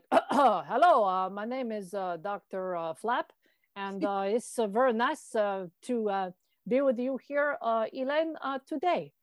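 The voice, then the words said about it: Clown character, Quebecois French accent. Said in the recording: “Dr. Flap does speak with an accent ... they have a bit of a Quebecois accent.”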